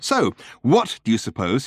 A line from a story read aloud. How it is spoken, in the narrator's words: he asked fiercely